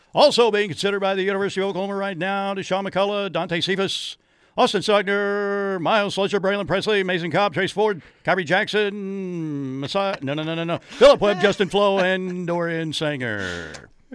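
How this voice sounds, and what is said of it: Very fast auctioneer-style rattling delivery. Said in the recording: “You're gonna have to whip out your auctioneer voice”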